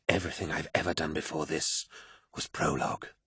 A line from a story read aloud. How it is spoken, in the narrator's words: whispered